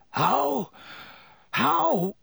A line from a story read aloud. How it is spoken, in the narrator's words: said Black, weakly